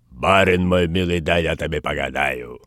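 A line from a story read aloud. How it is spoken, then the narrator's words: Disguised guttural voice. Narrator (Russian): Людмила цыганкою сказала измененным гортанным голосом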